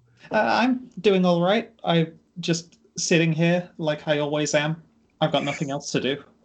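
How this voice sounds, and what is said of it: British accent. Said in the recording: “is that a British accent? ... Yes. Yes, it is.”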